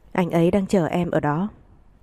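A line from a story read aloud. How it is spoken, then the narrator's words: Tearful, soft. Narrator (Vietnamese): Vẻ mặt Bộ Hoài Vũ rừng rưng, khẽ nói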